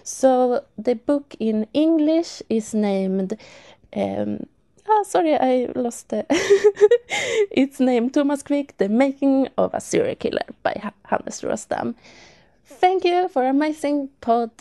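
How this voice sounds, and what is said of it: Speaks with a foreign accent. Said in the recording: “I love your accent”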